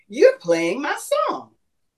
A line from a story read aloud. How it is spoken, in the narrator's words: said in an excited tone